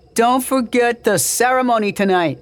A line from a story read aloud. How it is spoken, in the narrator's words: One of them shouted to Kenya